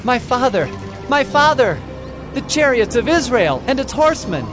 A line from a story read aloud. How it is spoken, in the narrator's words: he cried